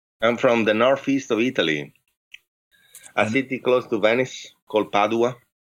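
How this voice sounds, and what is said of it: Italian-accented English. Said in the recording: “your enthralling accent”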